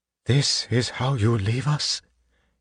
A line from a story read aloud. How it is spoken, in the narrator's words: He whispered